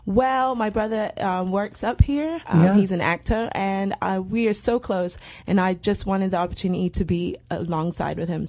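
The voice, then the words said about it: British London accent. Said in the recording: “I'm guessing by your accent that you're not from here originally. ... I'm from London, British girl.”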